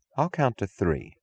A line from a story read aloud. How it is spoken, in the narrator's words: she said